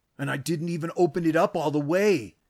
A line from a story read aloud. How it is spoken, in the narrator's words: Tank exclaimed, happy to have finally gotten a leg up in anything